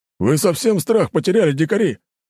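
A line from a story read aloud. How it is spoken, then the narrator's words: Harsh bark. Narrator (Russian): Моментально растеряв напускное веселье, рявкнул дружинник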